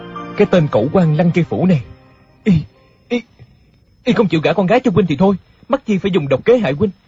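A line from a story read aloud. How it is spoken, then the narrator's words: Tearful, resentful. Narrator (Vietnamese): Địch Dân không ngăn được nước mắt ngập tràn nóng hổi, hậm hực nói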